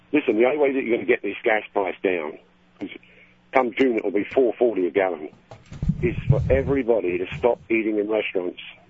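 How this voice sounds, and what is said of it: London accent. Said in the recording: “Accents. ... Me, I'm from London.”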